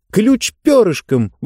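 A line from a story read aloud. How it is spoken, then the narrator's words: Exclaimed. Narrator (Russian): воскликнула Диба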